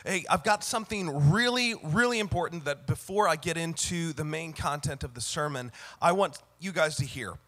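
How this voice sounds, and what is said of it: Sick, cracking voice. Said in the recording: “You probably can hear in my voice a little, you're probably thinking, wow, did ... go through puberty? ... I'm a little under the weather today”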